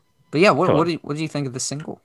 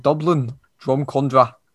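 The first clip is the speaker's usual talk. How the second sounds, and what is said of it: Poor attempt at Irish accent. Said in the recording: “That was not an Irish accent. The worst Irishman ever.”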